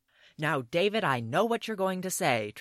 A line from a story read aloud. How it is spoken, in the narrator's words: shouted as he burst into the room